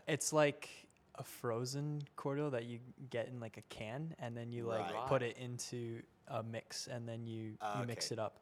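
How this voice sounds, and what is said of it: Canadian English accent. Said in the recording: “as you can probably tell from my voice, I'm not Australian... I'm in fact from Canada.”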